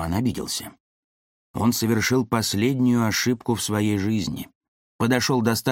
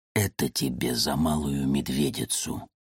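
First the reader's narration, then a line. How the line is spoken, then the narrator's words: Whisper. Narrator (Russian): прошептал Александр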